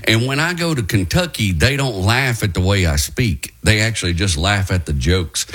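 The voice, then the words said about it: Appalachian Southern US accent. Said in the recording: “my accent is kind of Appalachian, right, because I was raised by hillbillies in East Texas”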